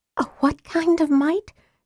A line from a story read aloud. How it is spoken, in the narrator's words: Tika whispered, her hands shaking